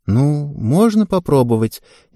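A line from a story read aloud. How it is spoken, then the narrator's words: Uncertain. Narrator (Russian): неуверенно ответила Ева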